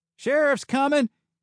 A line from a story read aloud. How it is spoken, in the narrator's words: he yelled, voice cracking